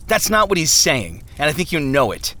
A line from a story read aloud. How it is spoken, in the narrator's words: Turnaway snapped